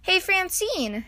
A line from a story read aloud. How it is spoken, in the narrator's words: she called out